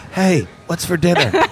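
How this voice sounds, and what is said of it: Whispering. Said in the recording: “You'll hear just this whisper.”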